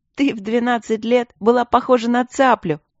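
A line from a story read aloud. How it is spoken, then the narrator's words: Giggling. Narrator (Russian): хихикала Алина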